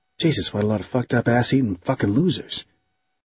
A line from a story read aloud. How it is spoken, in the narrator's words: Lance whispered to himself